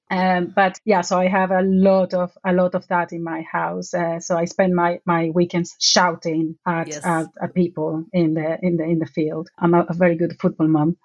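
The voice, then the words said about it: Non-English accent. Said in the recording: “I detect that's not an English accent I'm listening to”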